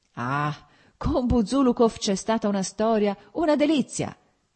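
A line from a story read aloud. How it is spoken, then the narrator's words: Shouted. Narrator (Italian): gridò Petrichki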